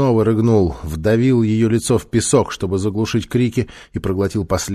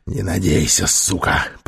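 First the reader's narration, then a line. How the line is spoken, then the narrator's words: Hoarse rasp. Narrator (Russian): прохрипел он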